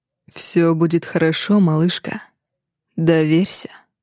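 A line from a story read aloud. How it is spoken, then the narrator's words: Whispered. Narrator (Russian): шепчет Рейгар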